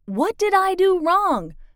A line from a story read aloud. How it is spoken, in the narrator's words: began shouting